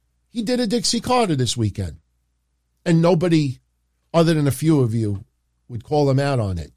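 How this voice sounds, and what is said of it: Usual voice. Nothing is said of it.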